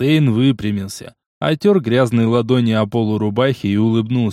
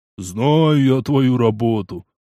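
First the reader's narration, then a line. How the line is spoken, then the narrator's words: With a short laugh. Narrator (Russian): Коротко хохотнув, Эльфстейн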